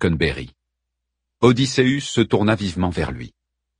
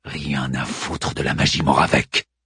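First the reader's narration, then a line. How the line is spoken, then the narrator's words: Growled. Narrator (French): gronda Odysseus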